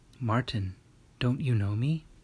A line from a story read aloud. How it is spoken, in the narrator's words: A voice whispered